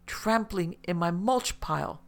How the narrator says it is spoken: Maria yelled back equally as exasperated

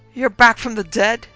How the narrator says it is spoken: wailed Otis Carson

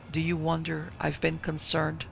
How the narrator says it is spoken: asked Frohlin

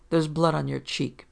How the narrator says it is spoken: Peter said coldly

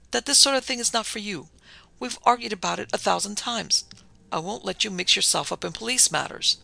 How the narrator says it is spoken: her father sighed

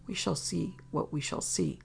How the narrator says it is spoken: said under his breath

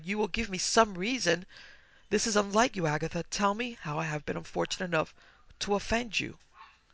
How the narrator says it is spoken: I cried

